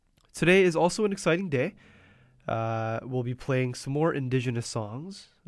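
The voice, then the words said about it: Congested, murky voice from a cold. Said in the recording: “I have caught the cold, and so my voice may sound a little bit murky than usual”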